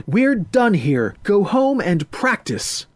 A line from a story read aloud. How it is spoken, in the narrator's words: She shouted